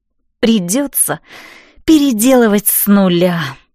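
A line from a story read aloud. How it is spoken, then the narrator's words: Tearful, despairing sigh. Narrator (Russian): сокрушенно вздохнула я, и от объема предстоящей работы по щекам снова покатились слезы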